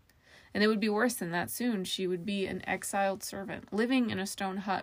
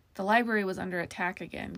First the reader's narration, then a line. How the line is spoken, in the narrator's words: Casey said